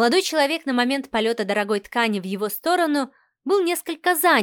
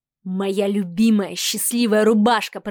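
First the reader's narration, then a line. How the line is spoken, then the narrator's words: Growl. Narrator (Russian): прорычал парнокопытный бог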